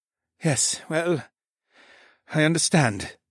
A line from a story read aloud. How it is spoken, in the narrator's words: he sighed